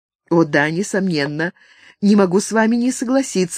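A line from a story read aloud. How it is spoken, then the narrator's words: Courteous reply. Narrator (Russian): любезно ответила Франческа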